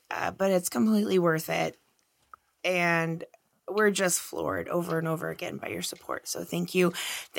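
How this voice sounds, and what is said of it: Hoarse, tired voice. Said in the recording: “I'm so tired, and that's why I sound hoarse, because I've been screaming at bands for 2 days”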